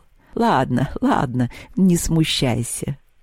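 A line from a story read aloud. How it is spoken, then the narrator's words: Laughing. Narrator (Russian): засмеялась Поляндра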